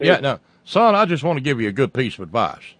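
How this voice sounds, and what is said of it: Put-on cornpone Southern accent. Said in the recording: “the characteristic cornpone accent”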